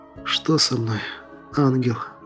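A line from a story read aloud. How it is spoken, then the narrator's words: Quietly sobbing. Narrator (Russian): Тихо всхлипывая произнес я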